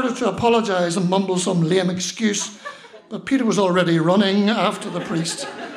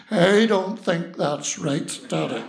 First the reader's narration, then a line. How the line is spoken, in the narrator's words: in disgust and grumbled